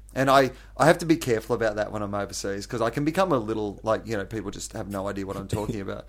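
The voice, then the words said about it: Strong Australian accent. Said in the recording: “you have quite an Aussie accent”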